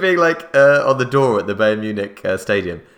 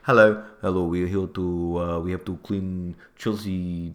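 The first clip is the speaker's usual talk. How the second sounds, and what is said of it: Put-on Russian accent. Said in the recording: “That's the Russian accent.”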